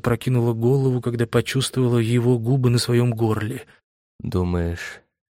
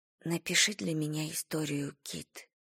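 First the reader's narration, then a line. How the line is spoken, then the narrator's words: Whisper. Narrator (Russian): прошептала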